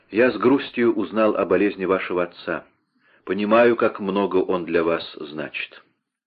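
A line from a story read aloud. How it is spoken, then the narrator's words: Calmer. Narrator (Russian): уже более спокойно барон сказал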